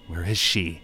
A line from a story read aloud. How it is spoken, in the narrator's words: he spat back